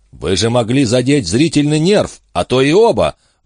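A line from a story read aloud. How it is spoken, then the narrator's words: Indignant barking inner voice. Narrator (Russian): возмущенно рявкнул в голове голос адвоката жены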